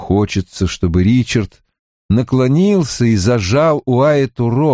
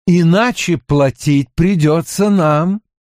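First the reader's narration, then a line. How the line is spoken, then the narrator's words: Plain. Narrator (Russian): говорит Ричард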